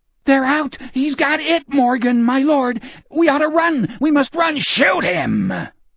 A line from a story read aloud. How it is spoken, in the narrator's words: Morgan screamed into Gardner's face